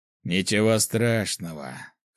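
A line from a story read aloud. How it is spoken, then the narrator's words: Snorting remark. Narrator (Russian): хмыкнул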